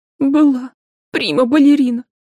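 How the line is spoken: Sobbing. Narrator (Russian): девушка опять разрыдалась

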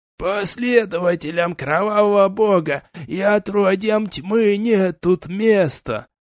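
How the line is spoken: Hissing old man. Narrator (Russian): прошипел старикашка

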